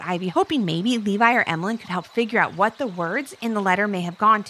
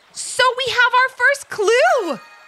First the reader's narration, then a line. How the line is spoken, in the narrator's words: said Levi happily